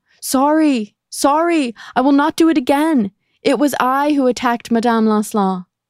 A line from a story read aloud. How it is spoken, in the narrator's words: she screamed out of her cell window